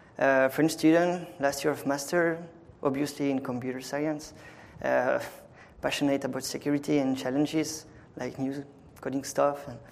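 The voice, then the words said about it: French accent in English. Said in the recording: “as you maybe noticed it with my accent, well, I'm French”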